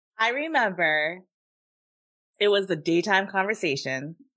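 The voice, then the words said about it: Choked-up, emotional voice. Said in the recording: “I'm getting choked up about it. I'm getting choked up about it.”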